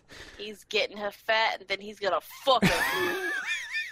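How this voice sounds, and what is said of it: New York accent. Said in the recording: “Your fucking accent is cracking me up... turned into a fucking New Yorker all of a sudden”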